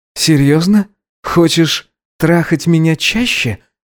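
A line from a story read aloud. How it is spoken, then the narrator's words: Breathy exhale. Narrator (Russian): выдохнул он ему в рот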